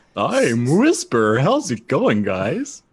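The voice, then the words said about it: Imitates a cartoon ghost character's voice. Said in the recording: “That yokai ghost, the Whisper... That's Whisper voice.”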